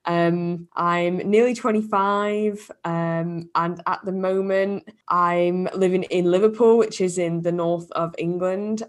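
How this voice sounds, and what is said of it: British English accent. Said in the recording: “I'm from the UK, as you can probably tell from my accent.”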